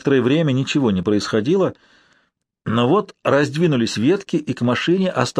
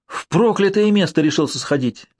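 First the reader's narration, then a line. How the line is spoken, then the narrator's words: Delighted girl exclaiming. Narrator (Russian): восторженно воскликнула одна из девушек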